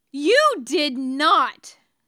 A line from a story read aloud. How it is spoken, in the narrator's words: James bellows